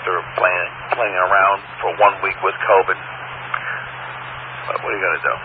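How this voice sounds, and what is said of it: Slightly lost, weak voice. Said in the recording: “my voice is still a little gone, but not bad.”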